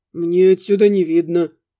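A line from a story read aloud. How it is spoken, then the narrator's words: Mutter. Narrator (Russian): буркнул рогатый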